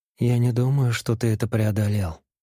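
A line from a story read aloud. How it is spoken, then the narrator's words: Soft objection. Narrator (Russian): мягко возразила она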